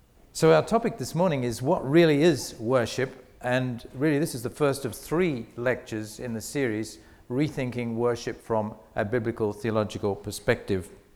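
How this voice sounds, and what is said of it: Mixed Australian and British accent. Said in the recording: “my strange accent, it's a mixture. I actually come from Australia, from Sydney, but I've been working in England for 9 years, so I've probably got a bit of a mixture of British and Australian”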